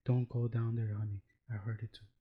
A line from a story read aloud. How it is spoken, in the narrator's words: you hear a whisper from the closet saying